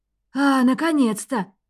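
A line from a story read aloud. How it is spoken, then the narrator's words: Exclamation. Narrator (Russian): воскликнул ректор Голд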